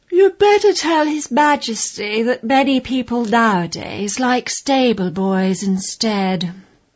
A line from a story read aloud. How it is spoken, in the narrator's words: The lady's maid said sleepily